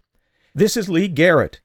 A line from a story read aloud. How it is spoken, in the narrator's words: shouted, appalled by the fear in his voice